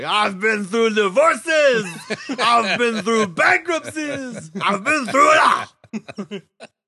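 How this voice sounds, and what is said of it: Ric Flair impression, shouted. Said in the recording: “my Ric Flair impression”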